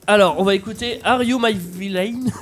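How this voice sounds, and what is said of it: French-accented English. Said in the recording (French): “I love your accent, my French friend. ... My franglais, it's perfect.”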